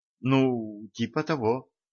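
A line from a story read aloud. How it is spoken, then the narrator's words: Mumbling young woman. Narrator (Russian): пробормотала девушка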